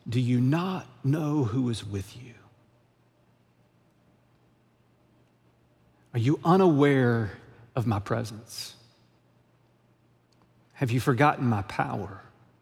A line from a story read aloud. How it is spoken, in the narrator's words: Jesus whispers back to us